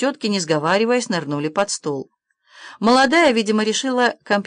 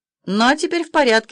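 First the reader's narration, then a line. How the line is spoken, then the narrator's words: Young woman exclaiming. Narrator (Russian): воскликнула молодая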